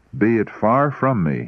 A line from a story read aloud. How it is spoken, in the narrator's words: he cried